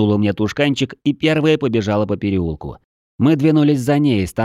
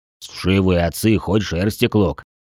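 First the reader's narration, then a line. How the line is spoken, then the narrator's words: Grumbling. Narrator (Russian): пробурчал гном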